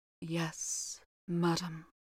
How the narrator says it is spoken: replied the housekeeper in a low voice

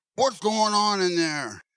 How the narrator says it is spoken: a voice just at the doorway cried

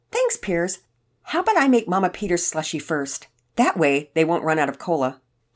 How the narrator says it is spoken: Penelope answered sweetly

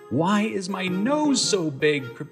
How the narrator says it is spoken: Pinocchio cried out

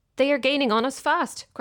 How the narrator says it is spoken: cried the engine driver

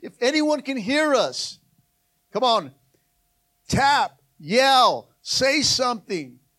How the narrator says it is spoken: shouting out

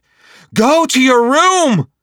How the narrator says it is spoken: his mother shouted, unable to hide the fear in her voice

